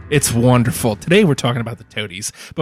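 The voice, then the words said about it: Pretentious, affected speaking voice. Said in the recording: “can you hear the pretense in my voice?”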